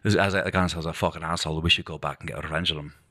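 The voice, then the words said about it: Put-on Scottish accent, poorly done. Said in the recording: “the Scottish accent, if you guys are like, what a shitty accent, it's actually probably even better when you're drunk”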